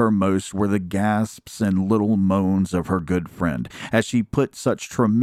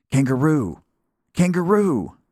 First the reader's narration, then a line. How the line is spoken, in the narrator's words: she cried